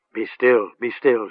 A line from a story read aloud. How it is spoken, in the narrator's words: she told him tenderly